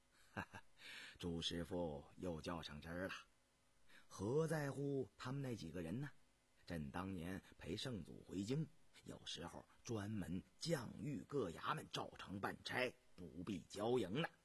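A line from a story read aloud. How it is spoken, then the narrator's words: Laughing. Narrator (Chinese): 雍正一笑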